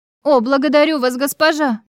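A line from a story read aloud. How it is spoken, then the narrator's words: Radiant exclamation. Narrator (Russian): воскликнула она, просияв лицом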